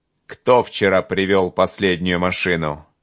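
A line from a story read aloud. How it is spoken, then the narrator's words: Sharp bark. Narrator (Russian): Рявкнул он, как выстрелил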